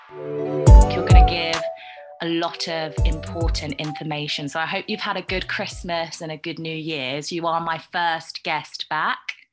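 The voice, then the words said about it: British accent. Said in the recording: “I love your British accent.”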